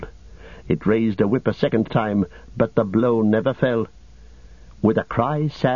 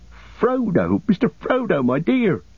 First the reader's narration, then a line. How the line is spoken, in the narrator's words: cried Sam, tears almost blinding him